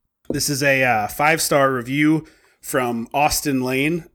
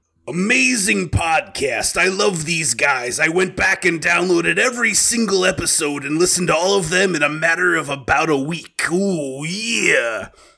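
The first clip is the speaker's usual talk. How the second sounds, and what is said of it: Poor imitation of a wrestler's voice. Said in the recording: “in my best Randy Savage voice ... my bad macho man ... in that bad voice”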